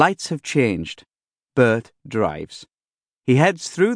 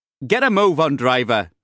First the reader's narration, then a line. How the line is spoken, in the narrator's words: somebody shouts